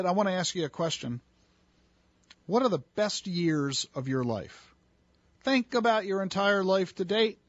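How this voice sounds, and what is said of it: Worsening, strained voice. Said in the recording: “my voice is getting worse as the moments go on”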